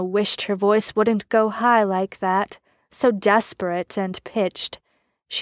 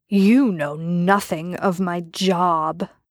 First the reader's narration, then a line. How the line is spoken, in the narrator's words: Jensen growled